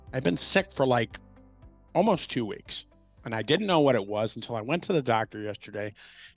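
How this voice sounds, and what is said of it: Hoarse voice. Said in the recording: “I have bronchitis ... I sound a little hoarse.”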